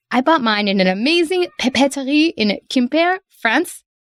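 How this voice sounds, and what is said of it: Weak attempted French accent. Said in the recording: “I don't actually speak great French, so that accent's not great.”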